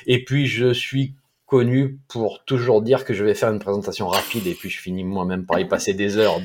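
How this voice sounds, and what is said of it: Slow southeastern French accent. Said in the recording (French): “mon accent du sud-est ... nous, les gens du sud, on parle lentement”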